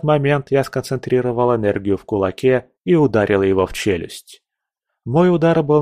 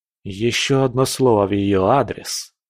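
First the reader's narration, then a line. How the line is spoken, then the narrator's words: Hissed. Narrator (Russian): прошипел я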